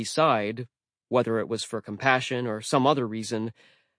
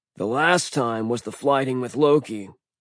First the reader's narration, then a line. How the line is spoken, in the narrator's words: Thor grumbled